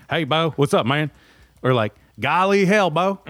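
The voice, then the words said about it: Put-on Southern accent. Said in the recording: “With the accent, too. Endearing. ... I always say it with the accent.”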